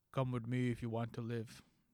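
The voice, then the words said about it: Bad imitation of another person's voice. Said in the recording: “That's a terrible Arnold. ... that awful Arnold accent”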